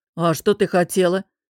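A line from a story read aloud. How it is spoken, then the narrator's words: Interrupting, snorting purr. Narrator (Russian): перебил босс и, хмыкнув, проурчал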